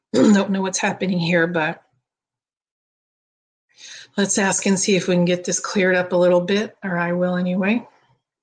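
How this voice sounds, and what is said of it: Slightly raspy voice. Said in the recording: “It's coming out a little raspy.”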